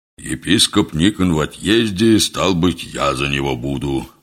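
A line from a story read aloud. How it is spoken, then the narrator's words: Deep booming bass. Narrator (Russian): густым басом прогудел отец Кондрат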